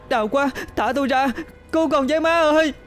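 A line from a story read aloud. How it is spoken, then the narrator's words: Piercing scream. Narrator (Vietnamese): Quệ gào thét, giọng xé nát cơn mưa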